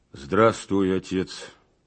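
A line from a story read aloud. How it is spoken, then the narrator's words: Muffled, hollow voice. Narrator (Russian): промолвил глухо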